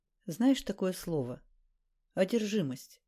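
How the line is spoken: Plain. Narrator (Russian): спросил Зимородинский

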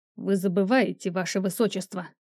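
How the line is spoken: Through gritted teeth. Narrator (Russian): сквозь зубы ответил Люций

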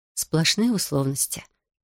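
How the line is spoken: Mother whispering. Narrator (Russian): прошептала мама

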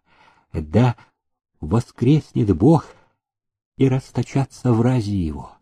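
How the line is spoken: Fearful whispered prayer. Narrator (Russian): про себя шептал жених, ограждаясь от чертовщины

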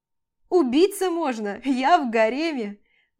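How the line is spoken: Cheerful laughter. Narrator (Russian): начинает весело смеяться

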